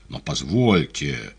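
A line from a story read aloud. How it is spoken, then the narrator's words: Resonant voice. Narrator (Russian): звучным голосом сказал Поплавский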